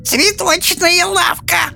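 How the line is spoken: Hissed. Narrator (Russian): прошипела Софи

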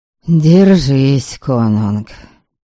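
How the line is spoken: Sighing. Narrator (Russian): вздохнул Гудрёд

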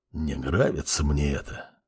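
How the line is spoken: Said quietly. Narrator (Russian): тихо произнес Арт

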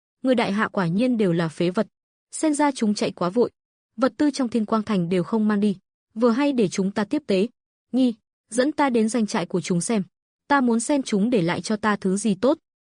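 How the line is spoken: Loud laughter. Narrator (Vietnamese): cười lớn

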